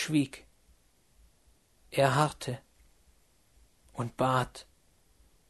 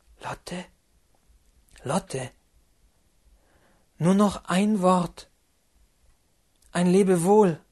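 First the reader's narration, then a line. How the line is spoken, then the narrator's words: Soft call. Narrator (German): rief mit leiser Stimme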